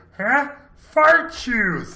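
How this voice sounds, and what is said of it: Exaggerated Fozzie Bear cartoon voice. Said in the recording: “I'm gonna do an impersonation ... My favorite Fozzie line ... That was a little bit of Pee Wee Herman coming through, and it was way too big there too”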